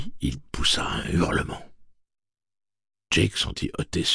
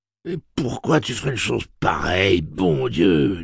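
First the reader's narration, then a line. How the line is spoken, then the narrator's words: Whining moan. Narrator (French): gémit Slightman, presque pleurnichard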